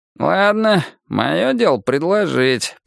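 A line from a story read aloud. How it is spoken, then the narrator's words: Grumbled. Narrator (Russian): проворчал он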